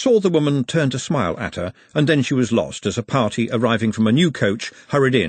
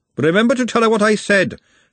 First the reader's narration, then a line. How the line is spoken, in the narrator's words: Glenda shouted after her